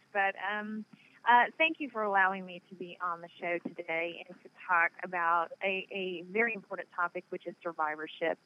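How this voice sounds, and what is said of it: Southern Nashville accent. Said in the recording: “I live in Nashville. I mean, if you can't tell by the accent.”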